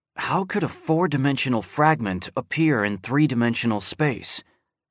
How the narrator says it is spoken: Guan Yifan muttered to himself

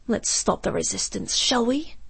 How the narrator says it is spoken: Octavius whispered into her ear

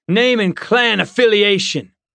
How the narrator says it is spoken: he barked

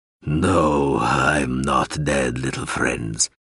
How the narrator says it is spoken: the Adiran rumbled

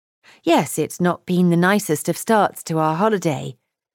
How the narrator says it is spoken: Kitty said in a crisp tone

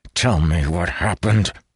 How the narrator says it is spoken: he growled

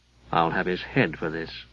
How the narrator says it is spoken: muttered Zancarel to his gear

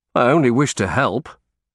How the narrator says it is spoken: I said stiffly

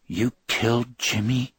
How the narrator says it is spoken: the woman asked in a deadly cold voice

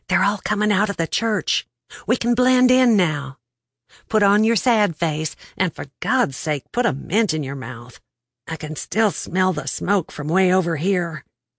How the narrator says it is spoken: Betsy whispered

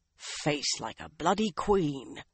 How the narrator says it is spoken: the one-eyed man muttered to himself

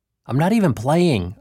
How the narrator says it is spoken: I yelled

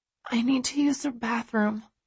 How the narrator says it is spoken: I whisper

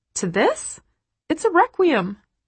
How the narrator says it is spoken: squeak, shocked

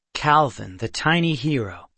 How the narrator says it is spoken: Seth said

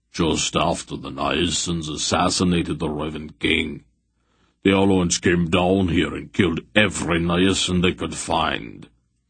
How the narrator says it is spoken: Beric said grimly

